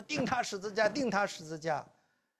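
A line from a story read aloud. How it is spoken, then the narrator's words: Crowd shouting in unison. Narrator (Chinese): 他们就同心的喊着说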